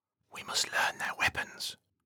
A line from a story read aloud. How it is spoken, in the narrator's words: Troy whispers